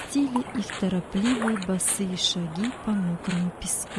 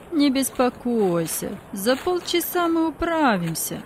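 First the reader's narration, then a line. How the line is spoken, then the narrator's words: Conciliatory tone. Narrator (Russian): примирительным тоном сказал другой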